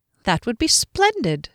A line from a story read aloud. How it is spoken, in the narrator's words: she said, quite cheerfully